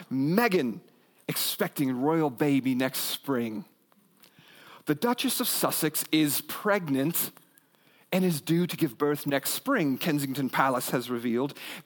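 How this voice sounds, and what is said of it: Put-on British accent. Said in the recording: “I'll give it to you in a British accent”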